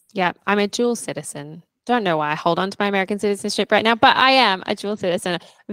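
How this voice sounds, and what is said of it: Australian accent with American twang. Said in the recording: “that American twang is a little bit stronger ... there's definitely like a lot of Australian in there, but I do get like those twangs”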